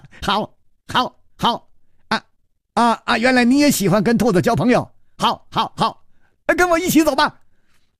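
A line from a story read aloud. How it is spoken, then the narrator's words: Laughing loudly. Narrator (Chinese): 薛宝宝大笑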